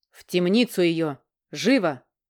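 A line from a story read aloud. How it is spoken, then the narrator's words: Barked. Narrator (Russian): рявкнул король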